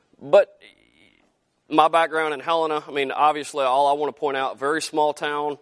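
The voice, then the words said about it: Southern drawl accent. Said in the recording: “the fantastic southern drawl accent ... I still have the accent”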